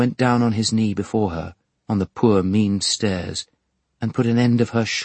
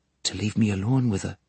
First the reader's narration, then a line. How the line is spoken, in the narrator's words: he said it in a low voice